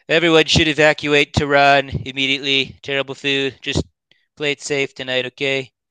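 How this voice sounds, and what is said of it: Imitates another person's voice. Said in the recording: “your mimicking of Trump impersonation. It's really good.”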